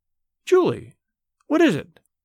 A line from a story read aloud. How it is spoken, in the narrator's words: Her voice rose, keen with terror